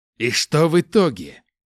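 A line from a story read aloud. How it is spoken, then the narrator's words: Growl. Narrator (Russian): зарычал Изао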